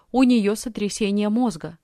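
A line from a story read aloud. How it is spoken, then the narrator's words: Plain. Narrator (Russian): сказал он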